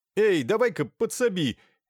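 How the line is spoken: Young man shouting. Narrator (Russian): крикнул молодой человек

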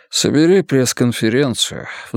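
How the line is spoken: Sighing. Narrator (Russian): вздохнул Мунк

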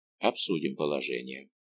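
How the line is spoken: Heavy sigh, speaking. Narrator (Russian): тяжело вздохнул и сказал

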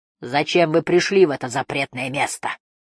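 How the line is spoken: Growled. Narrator (Russian): прорычал он

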